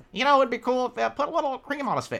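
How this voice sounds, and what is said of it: Vince Gilligan impression. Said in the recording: “That's my Vince Gilligan ... my Vince Gilligan impression”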